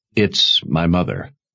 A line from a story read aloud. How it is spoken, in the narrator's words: Sebastian said in a confidential tone